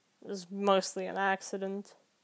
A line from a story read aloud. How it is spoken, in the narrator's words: he muttered